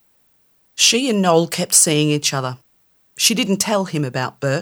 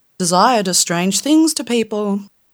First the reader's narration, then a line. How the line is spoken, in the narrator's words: sighed